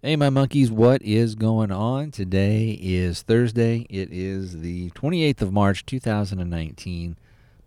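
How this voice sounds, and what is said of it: Voice sounds slightly off, congested. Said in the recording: “My voice may sound a little bit off. I do have, I think, a bit of a chest cold.”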